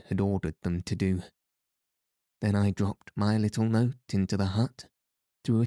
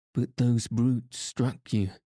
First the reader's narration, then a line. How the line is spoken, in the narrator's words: she gasped in horror at the bare recollection of the fearful indignity